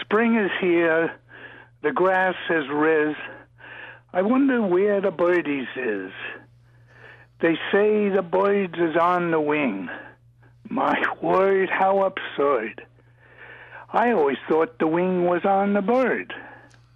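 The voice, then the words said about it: Put-on Brooklyn accent. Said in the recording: “In my best Brooklyn accent,”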